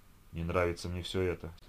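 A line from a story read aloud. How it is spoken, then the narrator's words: Muttered under breath. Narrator (Russian): себе под нос пробормотал Сережка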